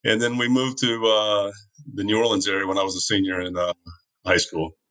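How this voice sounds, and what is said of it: Southern American accent. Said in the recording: “every good southerner knows Florida is not the South ... So where'd you get your accent?”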